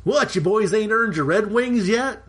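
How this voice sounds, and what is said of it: Put-on Oklahoma accent. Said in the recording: “Switch to oaky accent for the Nate voice.”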